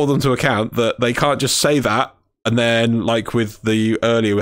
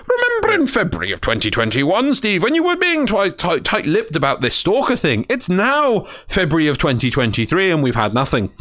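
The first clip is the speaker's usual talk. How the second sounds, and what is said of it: Silly put-on voice. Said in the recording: “my voice is going, that's why I'm going to do a silly voice for a second”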